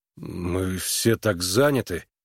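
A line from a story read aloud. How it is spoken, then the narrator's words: Confused mutter. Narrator (Russian): растерянно пробормотал Харлан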